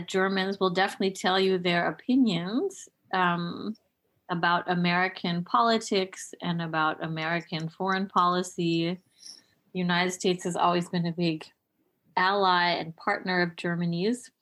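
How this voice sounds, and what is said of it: American accent. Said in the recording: “my American accent ... they heard my American accent”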